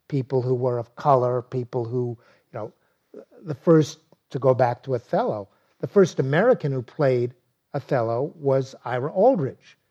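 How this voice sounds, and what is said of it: Brooklyn accent. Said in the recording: “my accent, my Brooklyn accent”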